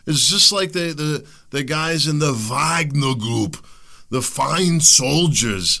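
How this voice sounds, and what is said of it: Put-on Russian accent. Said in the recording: “my like Arnold Russian accent”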